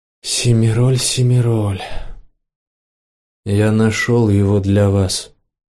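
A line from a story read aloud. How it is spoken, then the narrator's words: Muffled dull voice. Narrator (Russian): глухо сказал Рек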